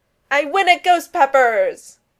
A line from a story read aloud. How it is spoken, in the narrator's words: yelled, throwing up his arms in victory